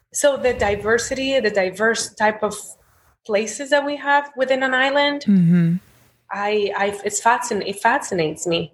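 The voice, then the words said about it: Speaks with an accent. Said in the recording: “See my accent.”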